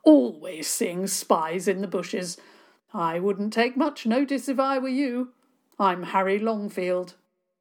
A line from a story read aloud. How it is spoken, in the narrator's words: he boomed